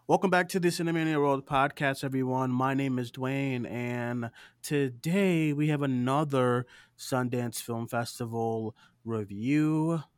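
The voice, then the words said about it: Tired, exhausted-sounding voice. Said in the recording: “I am exhausted, everyone. I'm sure you can hear it in my voice.”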